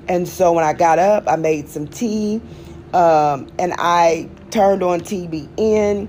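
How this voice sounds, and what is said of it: Strained, struggling voice. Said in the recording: “If you can tell from my voice, I'm struggling a little bit”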